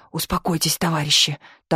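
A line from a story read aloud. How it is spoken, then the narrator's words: Whisper. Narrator (Russian): также шепотом отвечал начальник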